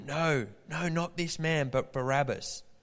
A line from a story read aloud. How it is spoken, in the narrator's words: they shouted back to him